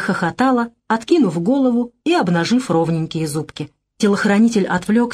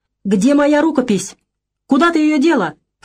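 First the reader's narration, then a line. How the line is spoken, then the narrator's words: Shouting. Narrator (Russian): кричал Аркадий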